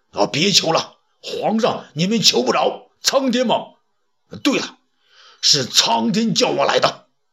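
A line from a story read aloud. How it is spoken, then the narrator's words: Loud. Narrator (Chinese): 郭谢呢，大声说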